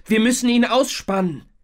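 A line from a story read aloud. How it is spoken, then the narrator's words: Calling out. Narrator (German): rief er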